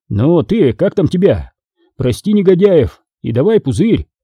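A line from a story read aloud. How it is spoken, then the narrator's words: Yelled, freezing. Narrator (Russian): Заорал я, в конец околевая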